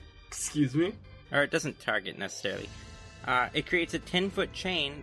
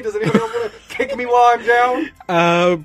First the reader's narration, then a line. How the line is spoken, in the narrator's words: Brackish yells out to Esther